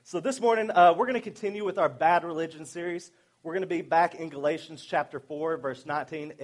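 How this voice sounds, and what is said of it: Stronger Southern US accent. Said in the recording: “I was back down south, so my accent started coming back a little bit stronger. So you might have to really listen to understand what I'm saying”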